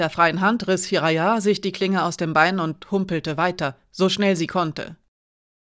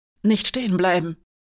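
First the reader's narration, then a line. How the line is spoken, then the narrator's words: Hiss. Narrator (German): zischte er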